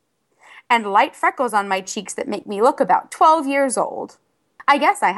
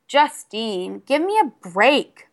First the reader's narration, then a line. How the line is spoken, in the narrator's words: I groaned